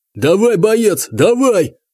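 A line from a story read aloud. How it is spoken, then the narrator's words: Yelling. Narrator (Russian): орал кто-то из кладбищенских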